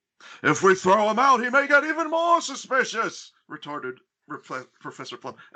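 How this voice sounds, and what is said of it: Imitates another person's voice. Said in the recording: “that's Christopher Lloyd that I'm doing there. That's a spot-on Christopher Lloyd ... doing a impression”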